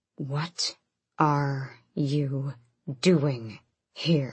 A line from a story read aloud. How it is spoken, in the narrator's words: Rolf growled